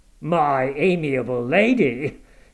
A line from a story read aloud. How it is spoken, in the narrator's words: he interrupted with an almost diabolical sneer